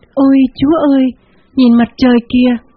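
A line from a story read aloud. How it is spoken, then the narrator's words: Sudden cry. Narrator (Vietnamese): một phụ nữ bỗng kêu lên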